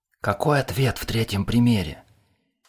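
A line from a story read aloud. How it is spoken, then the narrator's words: Loud stage whisper. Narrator (Russian): Громогласно, чуть ли не на весь класс, прошептал Хохлов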